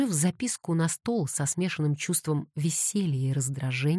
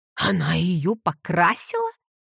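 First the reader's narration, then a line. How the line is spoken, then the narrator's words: Near howl. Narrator (Russian): едва не взвыл Девон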